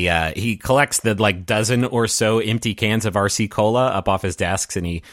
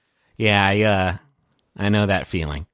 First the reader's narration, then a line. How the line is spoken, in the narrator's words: He kind of sighs and he says